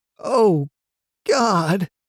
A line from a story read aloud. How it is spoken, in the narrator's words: the man moaned